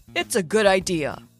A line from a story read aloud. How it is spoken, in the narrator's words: he said in his usual mentor voice